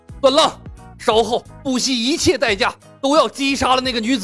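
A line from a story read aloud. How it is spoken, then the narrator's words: Hysterical roar. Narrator (Chinese): 独孤一方歇斯底里的吼道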